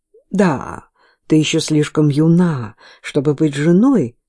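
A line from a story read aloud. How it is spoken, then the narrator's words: Plain. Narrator (Russian): сказал отец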